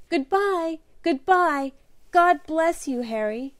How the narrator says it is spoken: sobbing as if her heart was broken

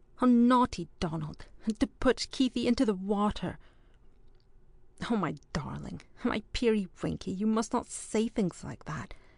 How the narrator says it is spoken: exclaimed Allison, rather shocked

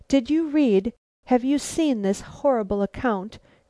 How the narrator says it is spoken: quavered Caroline

